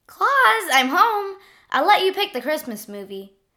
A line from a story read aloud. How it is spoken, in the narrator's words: the Grinch cried